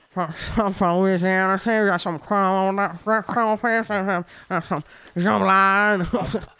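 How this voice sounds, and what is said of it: Put-on Creole accent. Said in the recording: “I should do some kind of Creole accent.”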